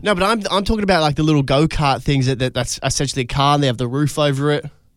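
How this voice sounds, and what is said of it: South Australian accent. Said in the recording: “You're from South Australia... with your bloody accent”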